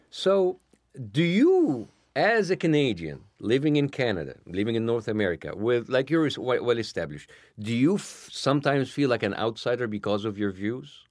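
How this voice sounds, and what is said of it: Speaks with a foreign accent. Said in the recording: “I didn't grow up here. I'm not white. I have an accent, obviously.”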